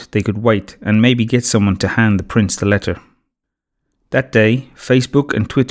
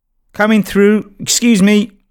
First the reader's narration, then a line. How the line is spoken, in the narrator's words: shouted David